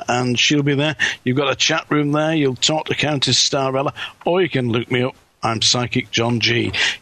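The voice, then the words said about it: Manchester English accent. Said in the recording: “you're killing me with that accent ... it's from Manchester, actually ... in the United Kingdom, in England”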